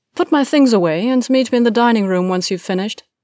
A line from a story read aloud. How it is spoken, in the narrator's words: called out over her shoulder